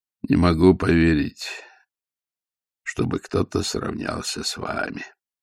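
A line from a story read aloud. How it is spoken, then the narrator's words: Husky voice from behind. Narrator (Russian): раздался за камнем хрипловатый голос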